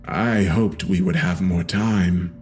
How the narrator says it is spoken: he said in a somber tone

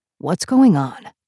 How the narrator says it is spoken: Puck asked, his voice low

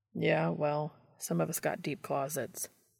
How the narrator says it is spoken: Dean muttered in reply

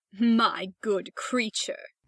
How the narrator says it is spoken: cried the rocket in a very haughty tone of voice

